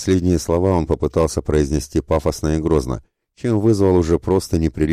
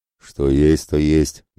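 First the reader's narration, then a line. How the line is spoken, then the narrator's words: Good-natured sigh. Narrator (Russian): добродушно вздохнул Ратибор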